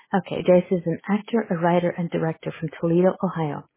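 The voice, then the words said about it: Put-on sexy voice. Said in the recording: “With my sexy voice.”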